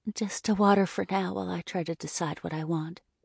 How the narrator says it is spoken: My cheeks filled with heat as I whispered

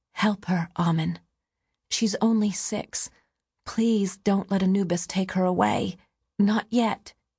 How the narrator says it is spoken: his final words rang out

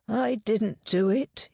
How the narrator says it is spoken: he said wearily

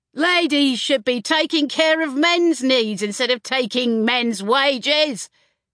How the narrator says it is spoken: shouted one man, flushed with an angry joy

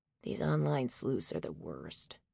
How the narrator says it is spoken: Stanley muttered

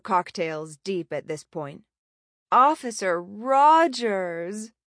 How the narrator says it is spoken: Layla moaned

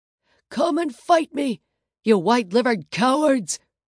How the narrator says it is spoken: screamed

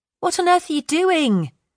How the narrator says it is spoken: shouted Kelly over the noise

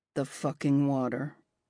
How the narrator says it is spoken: mutters again

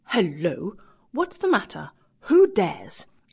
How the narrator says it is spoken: exclaimed

